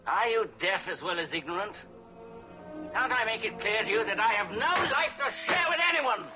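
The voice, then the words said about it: Yelling angrily. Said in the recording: “You're yelling”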